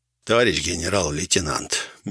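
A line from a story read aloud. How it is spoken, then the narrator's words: Gentle explanation, priest. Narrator (Russian): мягко пояснил свою позицию священник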